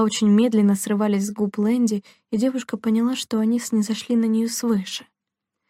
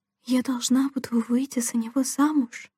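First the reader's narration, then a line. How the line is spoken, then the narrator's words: Whispered question. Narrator (Russian): шепотом спросила Делла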